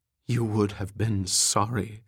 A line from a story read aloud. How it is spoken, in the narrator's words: Melody said